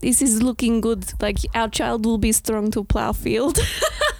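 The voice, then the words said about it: Put-on Russian accent. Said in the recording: “I just always do Russian to him as a joke”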